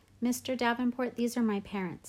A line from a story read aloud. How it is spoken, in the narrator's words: said Via